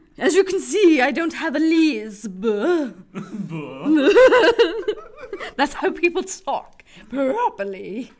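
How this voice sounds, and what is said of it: Put-on posh British accent. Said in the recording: “That's my British accent... It's from Sussex”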